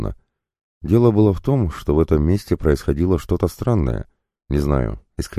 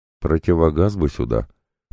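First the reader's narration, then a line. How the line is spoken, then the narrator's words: Faint dizzy mutter. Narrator (Russian): пробормотал я, чувствуя, как земля уходит у меня из-под ног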